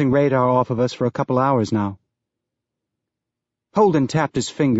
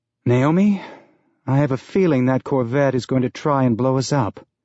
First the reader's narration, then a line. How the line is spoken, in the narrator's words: Holden said with a sigh